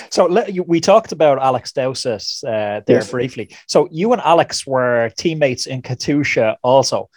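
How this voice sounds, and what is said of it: Quite strong accent. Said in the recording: “you have a quite strong accent, so I really have to listen very carefully”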